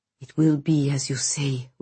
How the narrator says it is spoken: whispered Konstantin

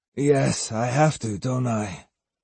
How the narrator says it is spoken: mumbled Matahachi without enthusiasm, biting his lower lip to keep it from trembling

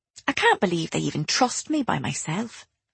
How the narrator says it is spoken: I muttered

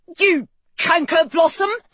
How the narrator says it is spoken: He cried

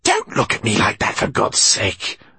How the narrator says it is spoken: she hissed

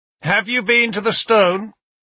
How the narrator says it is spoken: Alfred called out eagerly

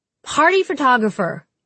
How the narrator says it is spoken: screamed Jude over the music

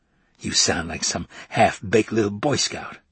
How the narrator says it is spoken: Mondale said scornfully

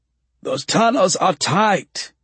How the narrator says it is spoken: he gasps

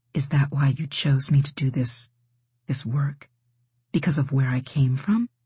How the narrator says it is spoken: she whispered

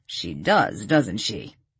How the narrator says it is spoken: McDonald chuckled

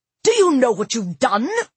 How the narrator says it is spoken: Jasper cried

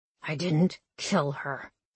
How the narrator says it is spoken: he growled

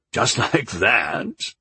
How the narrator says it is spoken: he laughed

